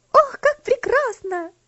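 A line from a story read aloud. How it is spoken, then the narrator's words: Excited shout. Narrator (Russian): закричала Луси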